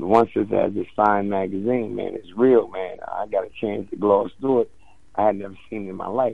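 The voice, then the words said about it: Rough, strained voice. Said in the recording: “excuse my voice... I'm a little rough... Gonna have to excuse my voice. It's a little rough right now.”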